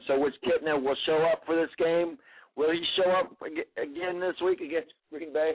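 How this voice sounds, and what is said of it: Hoarse, strained voice. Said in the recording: “I've got a frog in my throat today ... I about lost my voice”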